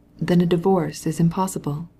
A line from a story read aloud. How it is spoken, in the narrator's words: he asked gently